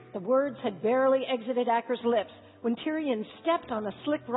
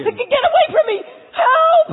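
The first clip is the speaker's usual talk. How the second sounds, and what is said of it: Panicked yelling and screaming. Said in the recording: “He panicked, thrashing around and screaming. ... stop yelling”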